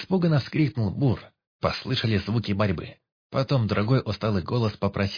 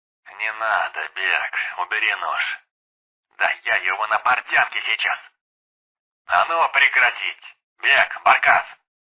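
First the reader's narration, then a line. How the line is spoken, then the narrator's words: Barked. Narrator (Russian): Рявкнул Полтораж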